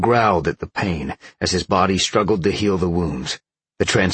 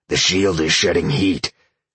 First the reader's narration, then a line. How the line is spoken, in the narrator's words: Sean grunted